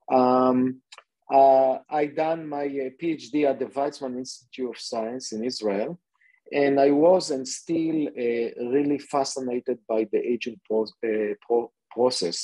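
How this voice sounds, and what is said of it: Israeli accent. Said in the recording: “born and raised in Israel, and I'm sure that you can hear it from my accent.”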